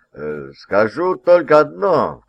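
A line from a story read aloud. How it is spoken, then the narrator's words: Governor's repeated chuckle. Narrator (Russian): в какой раз уже хохотнул губернатор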